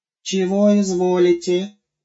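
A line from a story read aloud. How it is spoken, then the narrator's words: Lisping. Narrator (Russian): продолжал шепелявить новый Гоша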